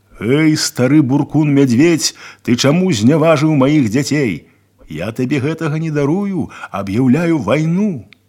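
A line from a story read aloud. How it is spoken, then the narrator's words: Shout. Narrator (Russian): закричал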